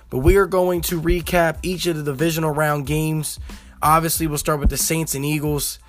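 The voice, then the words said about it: Voice a little off, strained. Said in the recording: “my voice is a little bit off from yesterday's game ... my voice is a little bit out today”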